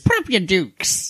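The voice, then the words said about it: Cartoon character voice impression. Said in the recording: “That was a really good impression.”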